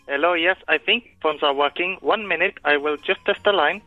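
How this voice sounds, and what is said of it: Caller putting on a funny voice. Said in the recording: “Everyone's doing funny voices tonight... doing a funny voice”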